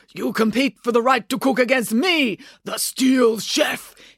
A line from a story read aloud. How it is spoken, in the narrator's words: he shouted angrily in Japanese